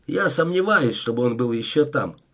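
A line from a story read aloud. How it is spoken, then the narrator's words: Plain. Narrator (Russian): ответил Дэвис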